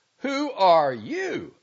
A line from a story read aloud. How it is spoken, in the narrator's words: shouted